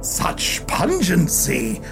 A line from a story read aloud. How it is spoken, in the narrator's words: Blind Sally exclaimed, almost in admiration